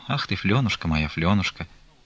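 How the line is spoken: Quiet, after long silence. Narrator (Russian): тихо проговорила она после долгого молчания

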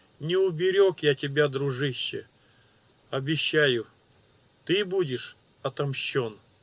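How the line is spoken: Voice breaking with emotion. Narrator (Russian): Голос подвел Ичира, и он глубоко вздохнул, справляясь с эмоциями

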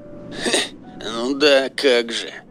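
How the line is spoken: Scornful snort. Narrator (Russian): фыркнул Серега

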